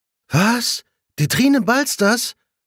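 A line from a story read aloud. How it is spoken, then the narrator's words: Shocked exclamation. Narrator (German): ruft Svenja schockiert aus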